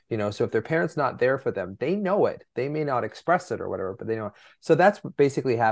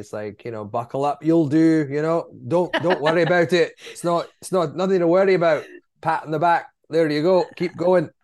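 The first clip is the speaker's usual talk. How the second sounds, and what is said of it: Convincing put-on Scottish accent. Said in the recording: “You have a great Scottish accent.”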